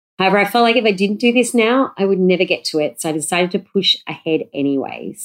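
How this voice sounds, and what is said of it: Nasal, congested voice. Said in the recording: “as you might be able to tell from my voice, I feel like it's nasally. I'm currently recovering from the flu ... my voice is weird”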